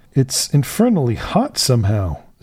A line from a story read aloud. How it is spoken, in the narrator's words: said I